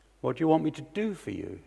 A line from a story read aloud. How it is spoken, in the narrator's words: he asked